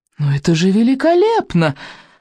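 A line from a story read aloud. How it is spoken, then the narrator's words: Exclaiming. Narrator (Russian): воскликнул неимоверный крутняк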